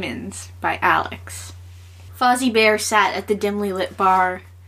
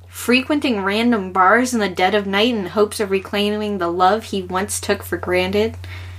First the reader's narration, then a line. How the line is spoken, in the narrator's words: Fozzie sighed and let out a dejected, waka waka